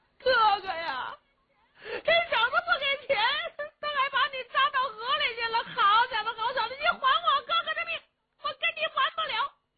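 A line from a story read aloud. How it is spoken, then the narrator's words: Helmsman wailing, crying. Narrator (Chinese): 这个掌舵的就哭了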